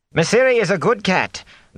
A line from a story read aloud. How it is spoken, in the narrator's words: the cook was saying sharply